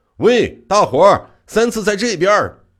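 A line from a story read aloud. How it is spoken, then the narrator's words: Sudden shout. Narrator (Chinese): 冷不丁儿的张口喊道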